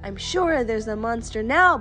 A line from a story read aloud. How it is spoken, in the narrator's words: Baby Bear cried